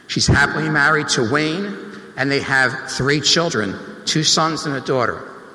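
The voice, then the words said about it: South Jersey accent. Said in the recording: “this South Jersey accent”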